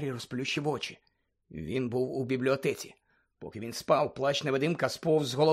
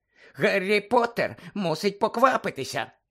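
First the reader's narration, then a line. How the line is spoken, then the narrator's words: High squeaky voice. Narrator (Ukrainian): пищав Добі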